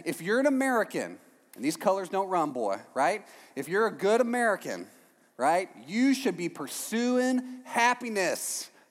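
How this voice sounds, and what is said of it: Put-on Texan accent. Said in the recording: “I don't know why I talk like a Texan whenever I think about America.”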